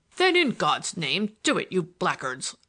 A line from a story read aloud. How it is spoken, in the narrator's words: roared Pickering